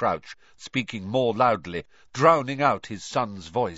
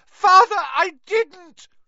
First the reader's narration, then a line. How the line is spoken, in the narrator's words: shrieked the boy in chains below